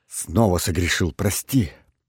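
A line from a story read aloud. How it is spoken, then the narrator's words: Hurried. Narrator (Russian): торопливо произнес он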